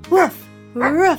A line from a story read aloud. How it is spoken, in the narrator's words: she barked